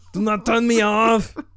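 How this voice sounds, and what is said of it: Robotic voice with Austrian German accent. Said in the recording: “why is this robot talking like this, man? ... Why is it, like, Austrian shit? Like, German, man. Like, you sound like a Nazi”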